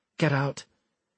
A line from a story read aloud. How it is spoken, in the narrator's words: Deitch told him in a deceptively mild tone